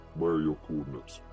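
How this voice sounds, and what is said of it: Deep character voice. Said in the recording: “deep voice”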